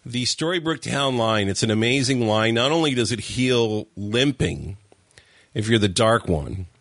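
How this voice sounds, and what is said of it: Rough voice with coughing. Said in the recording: “sorry about my voice and the coughing.”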